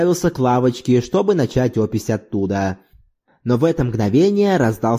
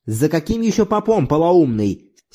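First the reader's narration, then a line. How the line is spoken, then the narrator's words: Angry reply. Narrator (Russian): сердито ответил Кантаманолиас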